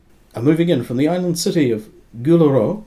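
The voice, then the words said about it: Name pronounced in French accent. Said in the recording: “I'm pronouncing it with a French accent”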